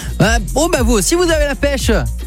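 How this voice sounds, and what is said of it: Half-put-on Marseille accent. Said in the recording (French): “je prends l'accent de Marseille ou à moitié quand je dis ça”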